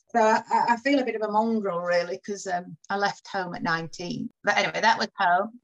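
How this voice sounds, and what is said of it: Barnsley Yorkshire accent. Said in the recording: “I've got a strong, more of a strong Barnsley accent, I think... people go, "Oh, you're not from round here, are you?"”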